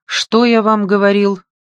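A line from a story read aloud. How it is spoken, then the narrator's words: Grumbling. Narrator (Russian): проворчал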